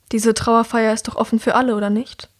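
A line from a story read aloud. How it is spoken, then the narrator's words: Sighing. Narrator (German): Er seufzt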